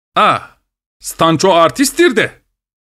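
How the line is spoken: Shouting. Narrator (Turkish): diye bağırdı

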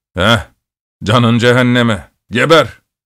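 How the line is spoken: Shouted. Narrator (Turkish): diye bağırdı

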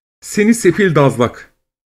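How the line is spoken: Young woman's cruel shout. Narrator (Turkish): diye haykırmış gaddarca genç kız

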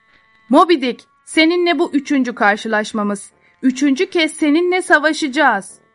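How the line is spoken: Shouted. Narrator (Turkish): diye bağırdı

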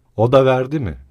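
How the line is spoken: Shouting, then roaring laughter. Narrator (Turkish): diye bağırdı ve müthiş bir kahkaha patlattı

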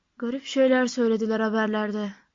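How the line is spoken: Muttered. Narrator (Turkish): diye mırıldandı Mr

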